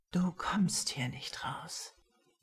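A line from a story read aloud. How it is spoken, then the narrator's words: Menacingly quiet. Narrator (German): sagt Jax bedrohlich leise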